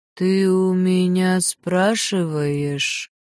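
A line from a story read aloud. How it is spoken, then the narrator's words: Sigh. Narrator (Russian): Вздохнула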